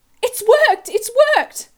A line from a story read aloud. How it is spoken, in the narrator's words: she cried